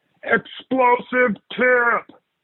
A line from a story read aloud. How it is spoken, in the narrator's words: someone shouted